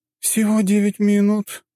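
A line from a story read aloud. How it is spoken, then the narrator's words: Sad sigh. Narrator (Russian): с грустью вздохнула красавица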